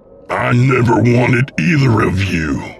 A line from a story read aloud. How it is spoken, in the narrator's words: William said with a snarl